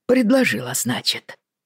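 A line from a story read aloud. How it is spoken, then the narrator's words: Muttered. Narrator (Russian): пробормотал он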